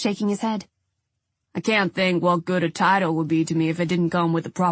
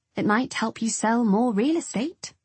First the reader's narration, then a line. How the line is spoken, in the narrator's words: I said sweetly